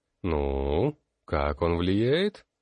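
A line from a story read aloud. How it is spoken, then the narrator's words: Uncertain. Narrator (Russian): он неуверенно произнес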